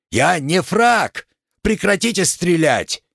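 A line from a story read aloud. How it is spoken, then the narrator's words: Indignant yelling. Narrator (Russian): Макс, дивясь наглости разбойника, заорал в ответ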